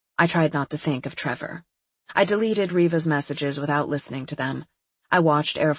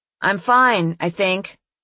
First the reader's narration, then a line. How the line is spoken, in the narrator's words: I yelled blandly over the roaring hum